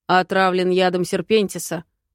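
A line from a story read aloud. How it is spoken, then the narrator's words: Deep bass voice. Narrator (Russian): пробасил Гаради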